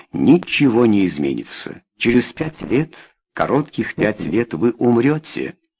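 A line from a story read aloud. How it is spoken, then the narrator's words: Calm, measured voice. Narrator (Russian): По возможности, спокойным голосом Кромптон сказал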